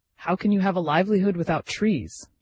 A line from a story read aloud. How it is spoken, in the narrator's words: exclaimed